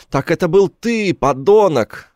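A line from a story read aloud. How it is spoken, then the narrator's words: Shouting. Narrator (Russian): Я слышал, как он кричал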